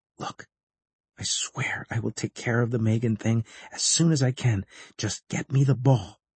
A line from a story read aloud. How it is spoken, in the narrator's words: I pulled him close to me and whispered